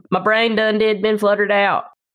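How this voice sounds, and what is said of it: Put-on Southern accent. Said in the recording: “people who grew up there can usually do a decent Southern accent”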